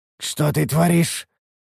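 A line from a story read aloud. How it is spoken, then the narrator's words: Hoarse, coughing blood. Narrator (Russian): прохрипел я, кашлянув кровью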